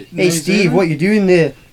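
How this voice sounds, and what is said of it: Weak attempt at New Zealand accent. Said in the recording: “Can anyone do a New Zealand accent? ... No, it's not very good, is it? ... that's South African. Kind of.”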